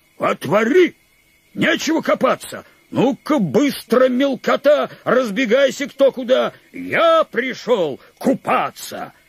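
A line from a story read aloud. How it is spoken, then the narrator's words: Gruff bark. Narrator (Russian): Рявкнул Мишка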